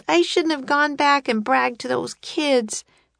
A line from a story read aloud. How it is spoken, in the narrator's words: wailed Annie